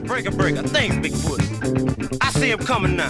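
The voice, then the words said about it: African-American trucker character voice. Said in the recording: “the voices he used, you know, he had this very obviously African-American voice”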